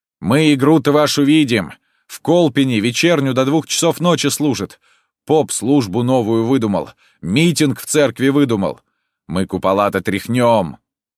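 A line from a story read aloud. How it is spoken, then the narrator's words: Shouting. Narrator (Russian): Один из них кричал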